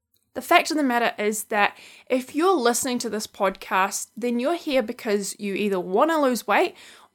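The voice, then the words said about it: New Zealand accent. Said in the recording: “my sexy New Zealand accent.”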